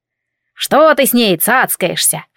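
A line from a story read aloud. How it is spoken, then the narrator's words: Indignant booming bass. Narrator (Russian): возмутилась она раскатистым басом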